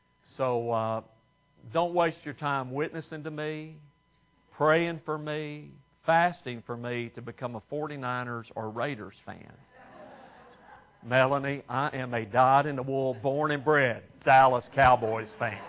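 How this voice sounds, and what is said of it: Texan accent. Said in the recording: “you can probably tell I didn't get this accent in California, right? ... I grew up in Texas.”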